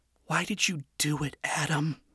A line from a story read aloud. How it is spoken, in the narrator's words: Charlie quietly pondered to the slab of rock